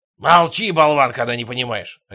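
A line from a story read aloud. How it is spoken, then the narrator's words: Father's bark. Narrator (Russian): рявкнул отец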